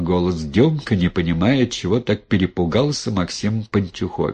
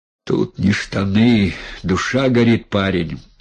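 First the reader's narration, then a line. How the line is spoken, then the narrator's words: Breathy exhale, man. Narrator (Russian): выдохнул мужик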